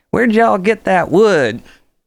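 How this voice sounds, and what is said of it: Exaggerated country girl accent. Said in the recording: “she'd use her biggest like country girl accent”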